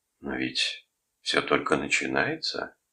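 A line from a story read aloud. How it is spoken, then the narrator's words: Quiet objection. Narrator (Russian): тихо возразил Бойлан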